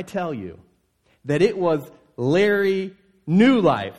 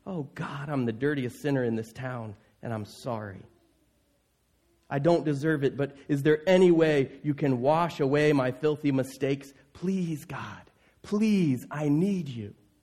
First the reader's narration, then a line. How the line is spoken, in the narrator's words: Holding his face in his hands, he sobbed quietly